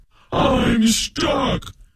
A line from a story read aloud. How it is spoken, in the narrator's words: the goblin shouted